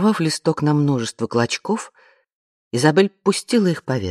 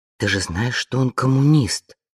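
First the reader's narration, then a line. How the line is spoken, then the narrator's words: Angry whisper. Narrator (Russian): сердито прошептала Вианна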